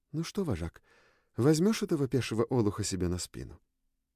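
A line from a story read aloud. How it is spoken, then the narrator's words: Louder. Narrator (Russian): Девушка добавила громче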